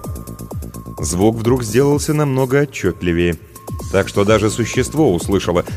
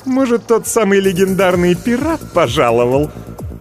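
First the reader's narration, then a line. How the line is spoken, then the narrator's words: Nasty cackling laugh. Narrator (Russian): Оно мерзко захохотало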